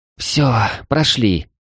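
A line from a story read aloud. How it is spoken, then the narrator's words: Relieved sigh. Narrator (Russian): облегченно вздохнула Феяна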